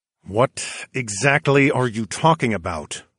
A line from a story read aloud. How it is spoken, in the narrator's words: I growled at Lady Fontaine through gritted teeth